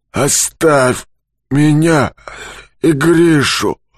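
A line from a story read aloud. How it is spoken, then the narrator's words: Angry wheeze. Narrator (Russian): Злобно хрипит Юрковский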